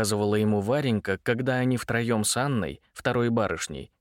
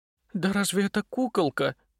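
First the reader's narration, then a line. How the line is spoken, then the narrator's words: Convulsive sigh. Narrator (Russian): судорожно вздохнула Анна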